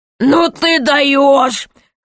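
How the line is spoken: Laughing loudly. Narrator (Russian): хохотал король

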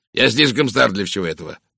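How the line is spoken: Snorting. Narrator (Russian): фыркнул майор

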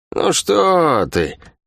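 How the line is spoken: False-toned woman. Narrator (Russian): фальшивым тоном произнесла Лавианя

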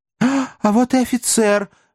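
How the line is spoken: Exclaiming. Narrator (Russian): воскликнул он через несколько минут

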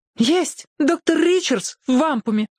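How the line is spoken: Tearful girl. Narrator (Russian): сквозь слезы сказала девочка

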